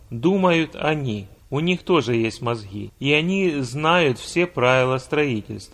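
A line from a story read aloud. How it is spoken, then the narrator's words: Calm. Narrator (Russian): главный архитектор спокойно сказал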